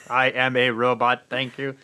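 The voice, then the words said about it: Robot voice. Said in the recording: “robot voice”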